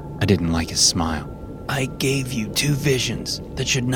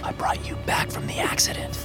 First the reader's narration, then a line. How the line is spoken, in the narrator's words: I whispered